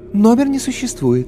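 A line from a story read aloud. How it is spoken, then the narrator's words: Melodic female voice. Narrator (Russian): неожиданно мелодичным женским голосом сообщила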